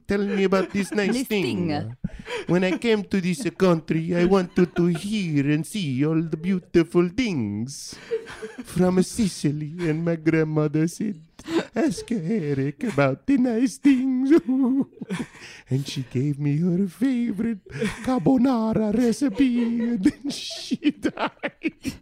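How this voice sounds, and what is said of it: Weird put-on Italian accent. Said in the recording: “weird Italian accent ... My Italian accent sounds like Count Chocula”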